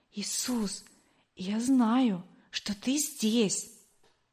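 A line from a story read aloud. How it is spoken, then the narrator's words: Whisper. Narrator (Russian): я шептала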